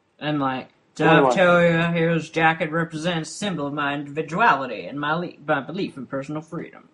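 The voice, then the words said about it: Imitates another person's voice. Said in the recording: “I can't do a Nicolas Cage impression, ... That was pretty good, though.”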